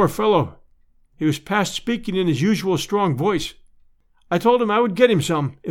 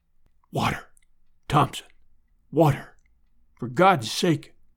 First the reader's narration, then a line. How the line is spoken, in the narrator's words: whispered